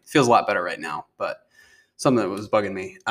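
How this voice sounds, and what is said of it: Sore-throated, rough voice. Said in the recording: “I have a bit of a sore throat. My voice doesn't sound as good.”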